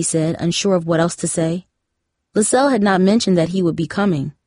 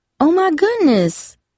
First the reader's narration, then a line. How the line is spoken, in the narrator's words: exclaimed